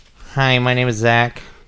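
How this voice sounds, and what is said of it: Squidward-like cartoon voice imitating someone. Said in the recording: “can you do a Zach impression, please? ... Do I really sound like that? ... So you just did Squidward, huh?”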